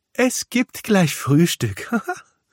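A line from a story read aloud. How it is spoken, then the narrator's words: Laughing. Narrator (German): lacht die Wichtelmama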